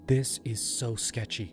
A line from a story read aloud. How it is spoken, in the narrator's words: Mia whispered to me